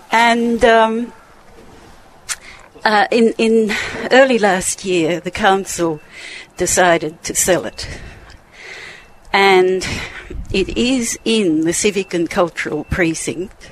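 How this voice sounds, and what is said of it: Out of breath, speaking in gasps. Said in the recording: “I'm a little bit out of breath”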